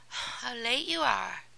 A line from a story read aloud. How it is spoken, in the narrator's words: cried Cinderella, yawning